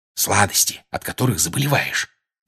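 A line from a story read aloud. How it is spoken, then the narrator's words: Whisper. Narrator (Russian): прошептал Джордж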